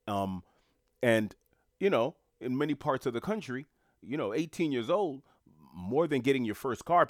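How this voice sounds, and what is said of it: New York City American accent. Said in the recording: “haven't picked up on my accent, I am from the United States of America, specifically New York City”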